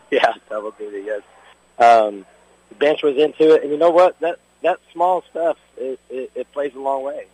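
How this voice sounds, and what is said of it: Hoarse, strained voice. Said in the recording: “My voice is kind of gone.”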